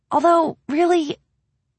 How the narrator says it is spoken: she sighed

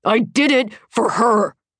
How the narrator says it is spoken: he snarls

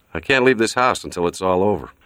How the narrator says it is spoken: said dryly

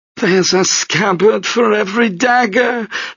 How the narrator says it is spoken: the madam says in Turkish as the whores laugh

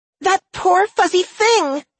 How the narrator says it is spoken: she wailed

